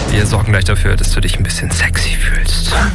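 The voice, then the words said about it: Whispering. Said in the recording (German): “dass ich geflüstert habe ... Möchtest du nicht, dass ich flüstere?”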